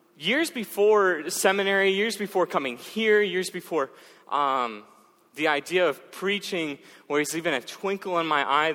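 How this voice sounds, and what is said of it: Minnesotan accent. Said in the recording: “you guys get to listen to a Minnesotan accent”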